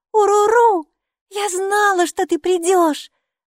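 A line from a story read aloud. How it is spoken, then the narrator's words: Shouted. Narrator (Russian): закричала Майки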